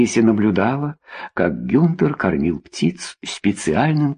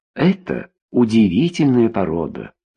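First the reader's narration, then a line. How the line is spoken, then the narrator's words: Plain. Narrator (Russian): сказал Гюнтер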